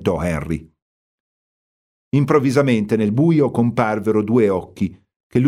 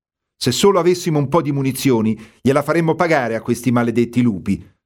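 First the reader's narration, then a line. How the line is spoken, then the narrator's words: Outburst. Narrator (Italian): sbottò Henry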